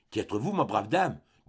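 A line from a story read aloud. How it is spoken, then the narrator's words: Stammered question. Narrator (French): demanda Michel Strogoff, balbutiant ces mots plutôt qu'il ne les prononça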